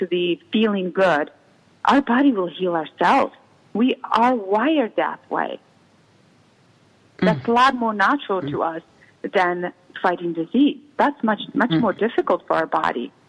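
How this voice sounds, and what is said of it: Slight Czech accent. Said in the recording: “you do have a small accent because you were raised in Europe ... I was raised in the former Czechoslovakia”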